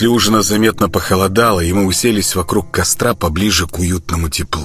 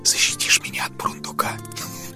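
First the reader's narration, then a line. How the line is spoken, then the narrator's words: Giggling whisper. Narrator (Russian): хихикнула шепотом Кристина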